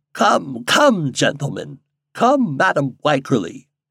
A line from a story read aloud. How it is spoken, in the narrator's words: exclaimed the doctor